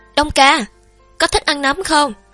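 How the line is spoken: Loud calling. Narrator (Vietnamese): Triệu Tử Thiêm lớn tiếng gọi

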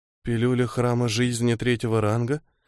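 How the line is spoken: Mumbling. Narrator (Russian): пробормотала та

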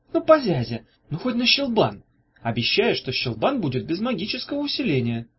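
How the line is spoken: Pleading. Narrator (Russian): взмолилась Ната

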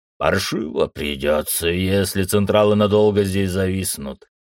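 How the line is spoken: Customs officer's gruff mutter. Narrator (Russian): буркнул таможенник

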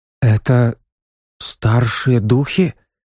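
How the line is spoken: Frightened question. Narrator (Russian): Испуганно спросила Хала

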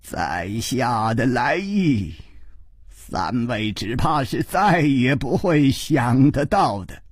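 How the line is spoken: Smiling. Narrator (Chinese): 这位剑法的名家已经笑着说

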